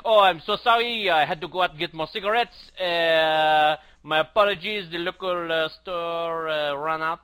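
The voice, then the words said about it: Bad put-on French accent. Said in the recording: “That's my terrible French accent.”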